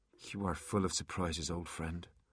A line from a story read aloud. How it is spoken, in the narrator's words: murmured Artemis